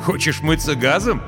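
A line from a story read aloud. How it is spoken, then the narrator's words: Laughing. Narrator (Russian): засмеялся майор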